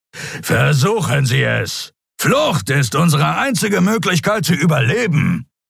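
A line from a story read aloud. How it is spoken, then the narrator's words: Growling. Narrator (German): knurrte Zron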